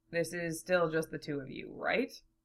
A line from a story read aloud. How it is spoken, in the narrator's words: Zell chuckled